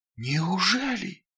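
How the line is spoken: Incredulous whisper. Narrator (Russian): неверяще прошептал он

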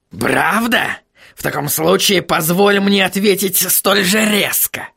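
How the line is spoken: Barking. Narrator (Russian): рявкнул господин Кноп

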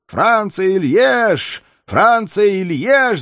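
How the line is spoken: Rousing crowd chant. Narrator (Russian): закричали спутники павильона, и крик этот подхватили многие другие горожане, которые снова воспряли духом

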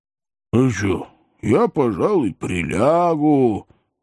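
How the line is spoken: Tired droning. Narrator (Russian): устало прогудел Храповицкий

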